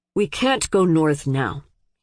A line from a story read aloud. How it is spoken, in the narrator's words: said patiently, a little coldly